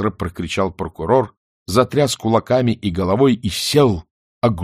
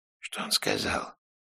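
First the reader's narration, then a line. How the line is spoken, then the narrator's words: Whispered question, general. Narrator (Russian): шепотом спросил приезжий генерал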